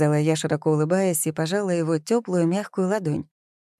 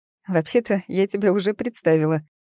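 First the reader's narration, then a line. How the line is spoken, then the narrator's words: Giggling. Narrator (Russian): хихикая, сказала Алиса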